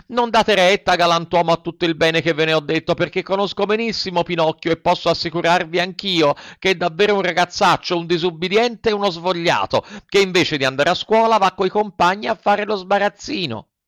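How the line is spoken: Frightened shouting. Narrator (Italian): tutto impaurito, cominciò a gridare

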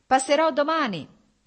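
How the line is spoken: Shout. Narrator (Italian): gli gridò Stepan Arkadich

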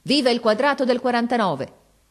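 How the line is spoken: Shouted. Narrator (Italian): gridò

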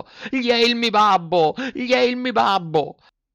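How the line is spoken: Shrill scream. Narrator (Italian): Pinocchio cacciò un urlo acutissimo gridando

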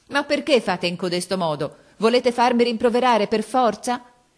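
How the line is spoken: Angry tearful shouting. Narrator (Italian): gridava con voce di rabbia e di pianto

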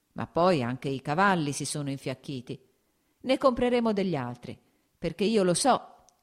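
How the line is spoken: Laughing. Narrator (Italian): aggiunse ridendo

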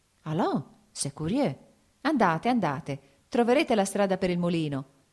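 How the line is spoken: Shout. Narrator (Italian): gridò Lievin

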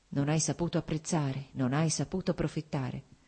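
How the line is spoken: Strange crazed murmur. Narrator (Italian): ripetere con uno strano, pazzo mormorio

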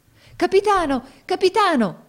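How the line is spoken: Crowd shouting together. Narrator (Italian): gridarono tutti insieme

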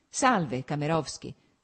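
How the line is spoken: Cold. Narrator (Italian): soggiunse stringendo freddamente la mano di Kamerovsky

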